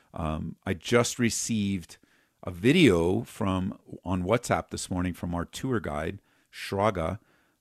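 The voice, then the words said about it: Hoarse, fading voice. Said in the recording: “I've been losing my voice the last couple of days.”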